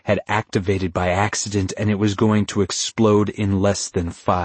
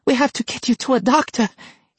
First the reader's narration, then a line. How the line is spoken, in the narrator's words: Hideki cried